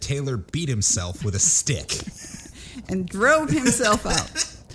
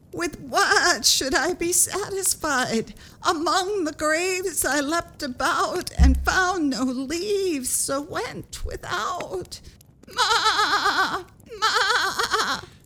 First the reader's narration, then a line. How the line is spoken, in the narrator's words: the goat cried